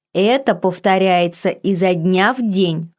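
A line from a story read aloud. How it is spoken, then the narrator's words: Snorting. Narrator (Russian): хмыкнула я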